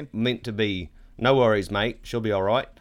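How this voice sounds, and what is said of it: Poor put-on Australian accent. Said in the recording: “an awful Australian accent ... going into South Africa ... hard also to not do a New Zealand accent mixed in”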